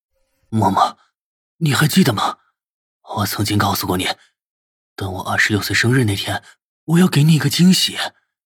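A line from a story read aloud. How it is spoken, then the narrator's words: Low, husky, tender. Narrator (Chinese): 他的眸子里面带着深深的柔情，声音低哑的开口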